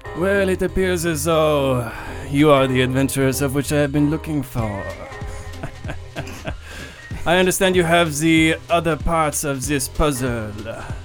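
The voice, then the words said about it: Silly accented character voice. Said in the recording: “for a beefy guy, he's got a stupid accent ... It's my accent ... the accent's real dumb”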